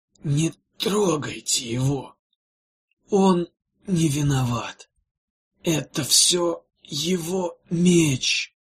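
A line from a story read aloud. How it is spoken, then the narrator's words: Weakening, fading voice. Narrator (Russian): слабеющим голосом сказал Тройл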